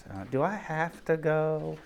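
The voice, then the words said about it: Whiny voice. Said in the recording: “I always read that in a whiny voice.”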